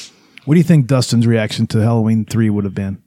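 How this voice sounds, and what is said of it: Usual voice. Nothing is said of it.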